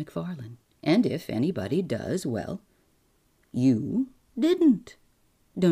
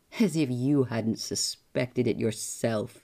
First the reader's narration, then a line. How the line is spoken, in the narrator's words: sneered the other